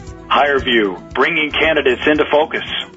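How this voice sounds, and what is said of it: Radio announcer voice. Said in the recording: “in your best radio voice”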